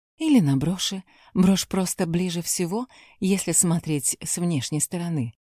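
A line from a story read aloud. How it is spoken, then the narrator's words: Timid. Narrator (Russian): робко сказала Зухра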